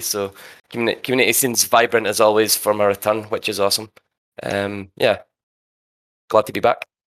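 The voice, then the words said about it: Speaks with a noticeable accent. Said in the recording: “It's good to hear your voice again, that beautiful accent.”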